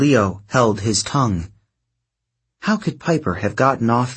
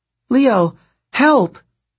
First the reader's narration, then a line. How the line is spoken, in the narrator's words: Piper's voice cried out